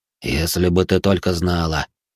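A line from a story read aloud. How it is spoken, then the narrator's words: Quiet whisper. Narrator (Russian): шепнул он ей тихо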